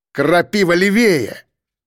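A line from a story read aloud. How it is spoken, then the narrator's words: Barked into radio. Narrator (Russian): рявкнул я в рацию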